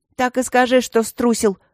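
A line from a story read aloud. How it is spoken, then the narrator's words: Scornful snort. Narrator (Russian): фыркнула она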